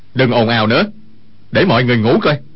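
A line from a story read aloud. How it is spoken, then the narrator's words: Shout. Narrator (Vietnamese): quát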